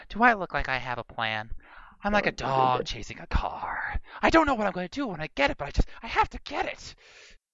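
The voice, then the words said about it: Joker impression. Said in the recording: “my Joker impersonation”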